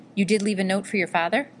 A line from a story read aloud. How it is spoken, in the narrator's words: she asked, her voice full of worry